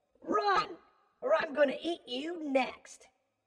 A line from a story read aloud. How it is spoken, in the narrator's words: I yelled at him